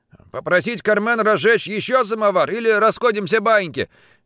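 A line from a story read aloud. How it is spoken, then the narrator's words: Shout. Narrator (Russian): крикнул Виктор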